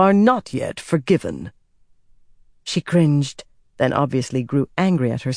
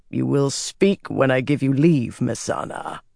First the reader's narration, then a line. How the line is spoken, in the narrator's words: he replied coldly